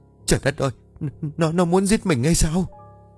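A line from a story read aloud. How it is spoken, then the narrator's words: Terrified indistinct stammer. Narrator (Vietnamese): Bà Bá mặt cắt không còn giọt máu, nó lắp bắp không nghe rõ được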